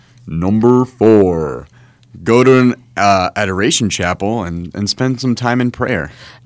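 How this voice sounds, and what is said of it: Dramatic movie announcer voice. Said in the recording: “do a movie announcer voice”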